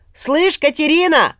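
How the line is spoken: Loud shout. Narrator (Russian): заорал он, пугая тишину

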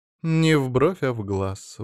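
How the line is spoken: Sighing. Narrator (Russian): вздохнула Галатея

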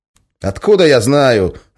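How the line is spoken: Snapping retort. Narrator (Russian): огрызнулся

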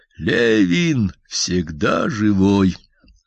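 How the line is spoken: Slow, solemn. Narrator (Russian): медленно, торжественно

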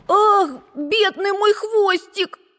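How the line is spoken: Squeaked. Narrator (Russian): пискнул Макси

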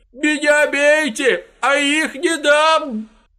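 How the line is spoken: Strangled desperate near-shout. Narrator (Russian): Почти выкрикнул он таким сдавленным и отчаянным голосом

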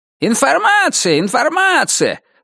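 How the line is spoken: Shouted to a crowd. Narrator (Russian): закричал он в толпу

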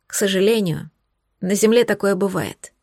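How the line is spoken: Quiet speech. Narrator (Russian): тихо произнесла Виолетта

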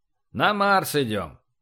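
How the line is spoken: Grumbling. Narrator (Russian): проворчал Эссекс

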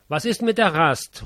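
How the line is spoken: Calling. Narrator (German): ruft man mir zu

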